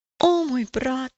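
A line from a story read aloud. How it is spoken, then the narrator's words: Sudden exclamation. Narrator (Russian): неожиданно воскликнул надеющийся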